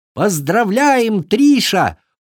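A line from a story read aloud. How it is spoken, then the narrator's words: Shouting in chorus. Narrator (Russian): хором закричали гости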